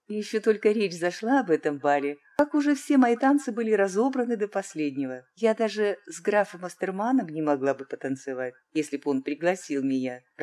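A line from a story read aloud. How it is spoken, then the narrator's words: Young woman laughing. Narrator (Russian): рассмеялась молодая красавица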